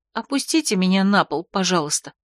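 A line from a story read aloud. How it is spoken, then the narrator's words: Quiet request. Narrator (Russian): попросила она тихо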